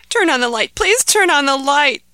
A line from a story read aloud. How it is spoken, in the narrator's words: begged Ahmed